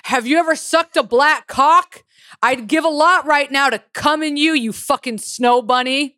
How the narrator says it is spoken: he repeat it louder, yelling

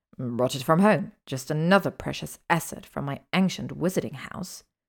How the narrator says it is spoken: he sneered

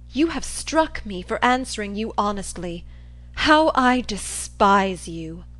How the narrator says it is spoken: When I had recovered a little from the effects, I exclaimed

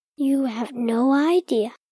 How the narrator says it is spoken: he said under his breath

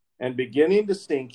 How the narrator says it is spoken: he cried, saying

